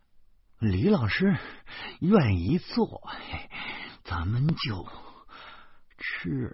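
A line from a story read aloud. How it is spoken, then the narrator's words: Panting heavily. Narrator (Chinese): 我喘着粗气说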